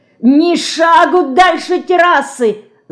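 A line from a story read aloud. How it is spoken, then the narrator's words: Shouting. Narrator (Russian): заорал он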